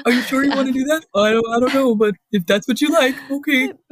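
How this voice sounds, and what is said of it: Impression of her partner's voice. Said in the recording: “your impression of Jeff”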